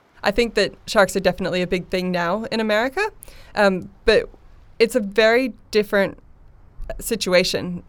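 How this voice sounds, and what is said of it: American accent. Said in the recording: “you have a bit of an accent, originally from America”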